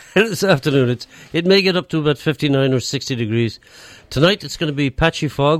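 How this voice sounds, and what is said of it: Irish-sounding accent. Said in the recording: “his lovely Irish accent ... I don't know it's so much an Irish accent”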